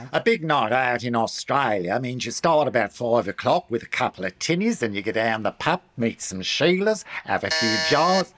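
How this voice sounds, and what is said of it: Put-on Australian accent. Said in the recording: “Why are you doing an Austrian accent? ... That's Australian. ... incorrect pronunciation of a national dialect”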